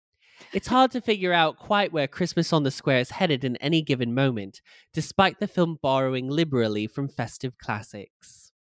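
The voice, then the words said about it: Put-on British accent. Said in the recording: “let me do this in a British accent.”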